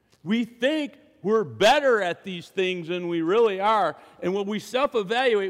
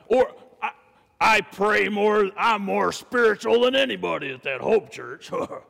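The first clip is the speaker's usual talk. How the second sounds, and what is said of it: Put-on deep voice. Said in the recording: “I don't know why I'm doing the deep voice,”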